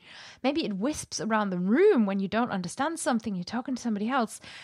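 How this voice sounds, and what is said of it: Usual voice. Nothing is said of it.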